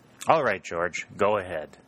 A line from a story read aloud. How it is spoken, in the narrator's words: said Colonel Winchester, laughing